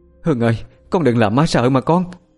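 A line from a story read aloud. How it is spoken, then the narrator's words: Frightened crying out. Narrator (Vietnamese): Ông bà Tám Tạng miệng cứ sợ hãi mà kêu lên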